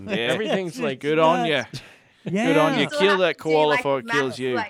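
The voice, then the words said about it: Put-on Australian accent. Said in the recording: “He's killing the accent ... I watched too much Steve Irwin when I was younger”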